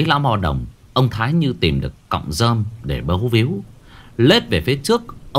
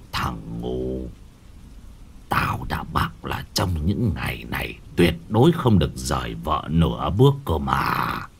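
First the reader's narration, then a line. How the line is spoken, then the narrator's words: Harsh, stern old man. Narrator (Vietnamese): Lão gằn giọng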